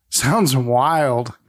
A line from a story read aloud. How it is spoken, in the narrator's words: Larry chuckles and says